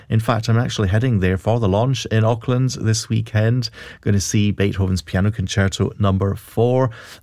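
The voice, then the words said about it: Scottish accent. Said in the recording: “a wee Scottish accent”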